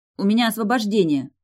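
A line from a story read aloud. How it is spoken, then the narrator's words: Snapping retort. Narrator (Russian): огрызнулась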